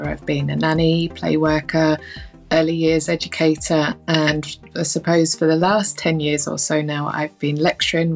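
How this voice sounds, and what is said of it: London English accent. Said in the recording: “You can probably tell from my accent, I'm not originally from Northern Ireland. I grew up in London”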